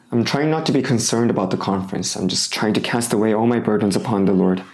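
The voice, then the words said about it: Hoarse, fading voice from cold. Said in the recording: “Hopefully my throat becomes better, so I don't lose my voice during the conference. But it's my body because my body is tired. I'm losing my voice and I'm sick with the cold”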